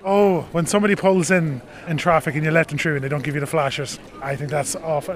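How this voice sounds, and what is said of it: Rural countryside accent. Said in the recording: “by the accent, you're from the country”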